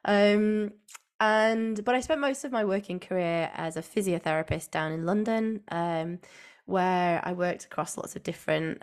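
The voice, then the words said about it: Northern English accent. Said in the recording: “I'm from the UK and from the Northwest. As some may be able to hear in my accent, I have a good Northern accent.”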